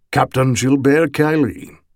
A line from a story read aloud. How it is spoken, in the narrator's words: he rumbled in a strong Tarawisian accent